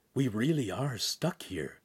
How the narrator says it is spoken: Hansum whispered

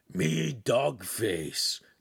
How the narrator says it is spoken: the canine AI said in a rolling, lazy growl

